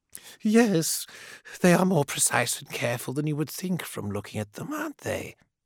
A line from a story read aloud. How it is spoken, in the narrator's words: he said, his voice a purr in her skull